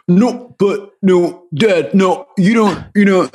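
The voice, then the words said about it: California accent, imitates another person's voice. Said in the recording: “he does this impression of his son ... a California accent”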